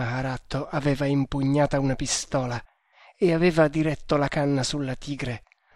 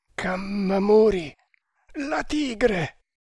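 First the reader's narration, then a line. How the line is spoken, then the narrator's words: Straining, stammering again. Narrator (Italian): tornò a balbettare Tremal Naik, sforzandosi di sollevarsi sulle braccia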